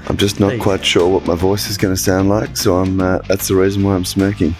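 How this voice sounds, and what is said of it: Gravelly, rough voice. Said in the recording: “Bit gravelly, mate”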